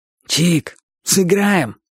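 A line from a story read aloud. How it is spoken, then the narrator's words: Hoarse voice. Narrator (Russian): сказал Боча своим сиплым голосом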